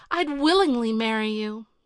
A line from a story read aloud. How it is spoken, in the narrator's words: she sighed